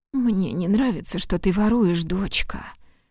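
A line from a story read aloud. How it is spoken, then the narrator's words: Sick, drowsy whisper. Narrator (Russian): прошептала Кандида сквозь болезненную дрему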